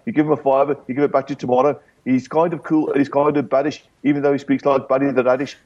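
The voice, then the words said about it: Attempted Stourbridge accent. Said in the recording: “I did try to do it in a Stourbridge accent”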